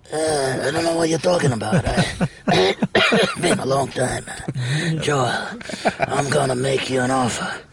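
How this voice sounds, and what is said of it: Impression of a Godfather character. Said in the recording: “The first scene of The Godfather. ... That's a great impression”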